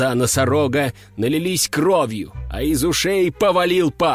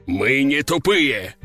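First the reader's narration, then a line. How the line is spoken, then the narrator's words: Roaring rhinoceros. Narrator (Russian): взревел носорог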